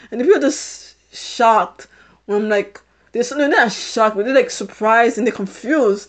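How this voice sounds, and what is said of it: British-sounding accent. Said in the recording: “It's more like a British accent. It's like a British accent ... why do you have a British accent? ... I have a British accent”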